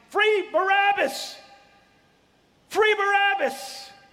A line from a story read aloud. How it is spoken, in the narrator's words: As the crowd is shouting